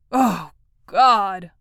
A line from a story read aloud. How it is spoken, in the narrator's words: almost groaned George